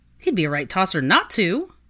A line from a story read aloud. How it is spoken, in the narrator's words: her loyal friend exclaimed